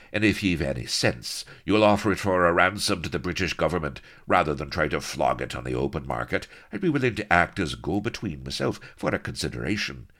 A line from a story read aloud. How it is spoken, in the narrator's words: he went on smoothly